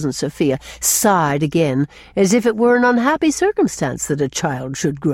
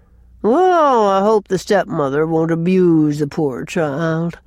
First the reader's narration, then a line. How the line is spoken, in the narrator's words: sighed Cousin Sophia